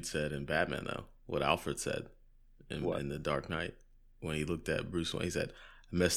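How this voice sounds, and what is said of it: Usual voice. Nothing is said of it.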